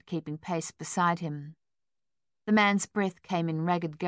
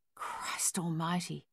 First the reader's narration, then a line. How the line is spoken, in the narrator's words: he whispered